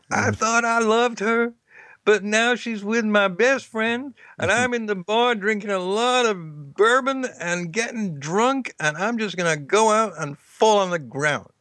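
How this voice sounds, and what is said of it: Imitates a country singer's voice. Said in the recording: “I know that's not a good impersonation ... 10 trillion songs about this, most of them country songs”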